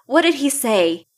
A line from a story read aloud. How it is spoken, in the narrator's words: ask him fairly loudly